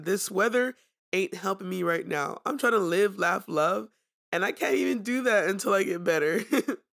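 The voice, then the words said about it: Sick-sounding voice. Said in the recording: “I'm sick. ... I apologize for my voice. I caught the cold over the weekend”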